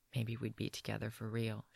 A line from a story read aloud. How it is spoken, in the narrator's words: she whispers